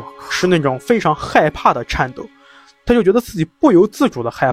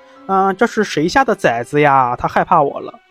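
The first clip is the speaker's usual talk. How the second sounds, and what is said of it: Imitated little girl's voice. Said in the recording (Chinese): “用一种特别小女孩的声音说...就是这种小女孩的声音，我学不像啊，我不会...我不会夹”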